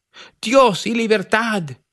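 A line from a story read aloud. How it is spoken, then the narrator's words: Exclaiming. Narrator (Spanish): Charles Rich exclamó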